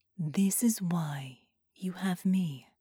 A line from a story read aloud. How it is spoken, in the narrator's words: Sarah replied calmly